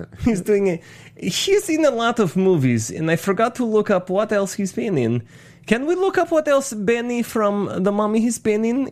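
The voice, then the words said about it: Effeminate Borat-like put-on accent. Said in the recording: “It's pretty good accent that I'm doing right now. ... It's almost Borat. It's between Benny and a little bit of Borat. ... It's like a very effeminate Borat is what you're doing.”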